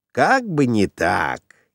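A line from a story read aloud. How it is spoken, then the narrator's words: Snide, sarcastic remark. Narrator (Russian): ехидно заметил Доркас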